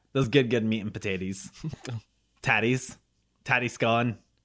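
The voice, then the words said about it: Put-on Scottish accent. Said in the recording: “Do you like my Scottish accent?”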